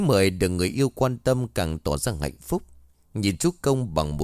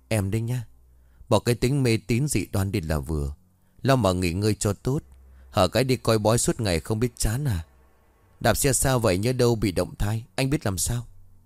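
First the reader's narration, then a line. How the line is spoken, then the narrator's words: Worried sigh. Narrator (Vietnamese): Chư Công thở dài lo lắng nói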